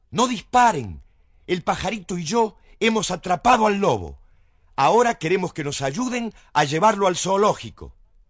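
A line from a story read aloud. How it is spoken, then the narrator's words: Shouting from treetop. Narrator (Spanish): sentado en lo alto del árbol, les gritó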